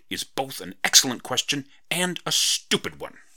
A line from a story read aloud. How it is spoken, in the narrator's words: she exclaimed